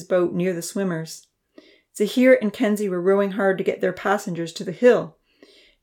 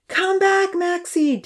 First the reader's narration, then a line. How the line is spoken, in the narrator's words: Damien yelled, paddling wildly with his arms to fight the raging water